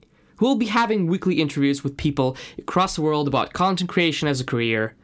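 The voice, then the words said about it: Slight Russian accent. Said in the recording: “a Russian guy with a slight accent”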